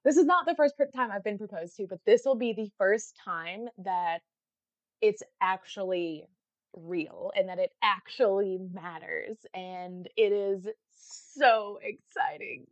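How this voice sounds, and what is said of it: Excited, happy voice. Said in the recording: “you can hear it in my voice. I'm so excited.”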